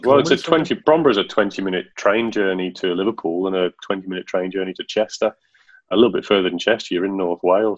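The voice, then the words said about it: Non-Australian English accent. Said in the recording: “you're the only outsider with an accent in the family”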